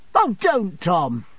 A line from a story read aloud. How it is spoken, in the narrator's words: cried Sophie